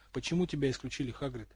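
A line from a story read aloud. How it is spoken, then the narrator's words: Quiet question. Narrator (Russian): тихо спросил Гарри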